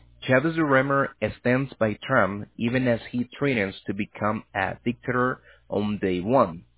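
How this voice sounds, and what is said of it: Thick accent. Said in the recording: “you have a really thick accent”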